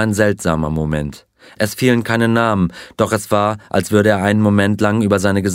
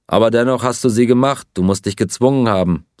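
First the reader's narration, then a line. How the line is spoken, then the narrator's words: Plain. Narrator (German): sagte Pierre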